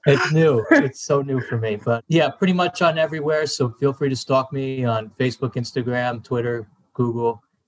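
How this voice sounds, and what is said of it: New Jersey accent. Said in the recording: “He's got the Jersey accent”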